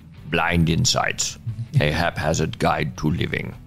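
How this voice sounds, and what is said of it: Imitates another person's voice. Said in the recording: “in my Churchill voice,”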